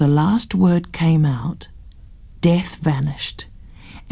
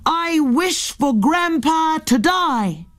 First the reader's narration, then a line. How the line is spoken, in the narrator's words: Henry said down the well